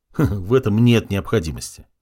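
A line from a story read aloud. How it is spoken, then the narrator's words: Dismissive snort. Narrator (Russian): хмыкнул солдат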